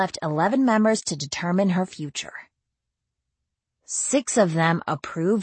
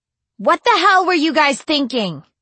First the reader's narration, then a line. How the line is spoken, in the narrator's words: she yelled